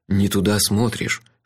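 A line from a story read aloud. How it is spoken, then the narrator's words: Whispered. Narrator (Russian): шепнул мне месье Мендоза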